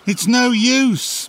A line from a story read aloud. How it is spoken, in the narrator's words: shouted Sheila